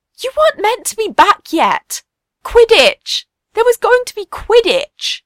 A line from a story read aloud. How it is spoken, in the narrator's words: Remus hides his head in his hands and wails